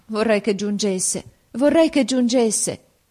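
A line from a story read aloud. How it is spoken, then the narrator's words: Sad exclamation. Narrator (Italian): esclamai, presa dalla tristezza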